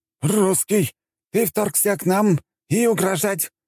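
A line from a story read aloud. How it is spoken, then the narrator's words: Shout in broken Russian. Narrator (Russian): на ломаном русском выкрикнул один из пятерки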